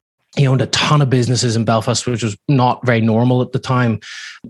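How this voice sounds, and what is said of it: Northern Irish accent. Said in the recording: “my father, back in Northern Ireland, I'm sure you can hear from my accent, it's not from Laguna Beach”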